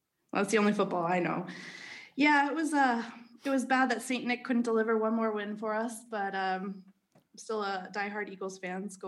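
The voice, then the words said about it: American accent. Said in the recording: “That sounds like an American accent.”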